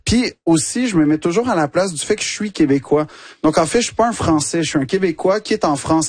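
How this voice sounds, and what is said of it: Quebec French accent. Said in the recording (French): “l'accent québécois ... le fait que tu dis avec cet accent”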